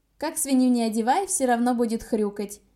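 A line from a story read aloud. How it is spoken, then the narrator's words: Loud reply. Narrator (Russian): громко ответила я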